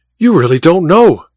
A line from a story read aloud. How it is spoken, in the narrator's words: cried Goodell, his eyes blazing